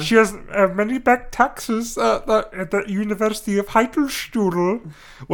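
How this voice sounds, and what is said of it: Put-on German accent. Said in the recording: “the German German man ... Doctor Strangelove. That's kind of the accent”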